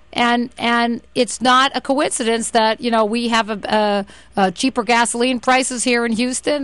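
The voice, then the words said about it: Boston accent. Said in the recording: “you can hear from my accent that I'm from Boston”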